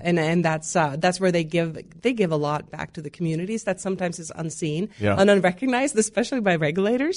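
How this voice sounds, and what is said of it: Norwegian accent. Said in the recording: “I love your accent ... I grew up in Norway”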